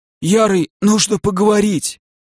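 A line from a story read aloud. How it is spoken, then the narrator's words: Hoarse strained rasp. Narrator (Russian): прохрипел некромант, стараясь разжать мою хватку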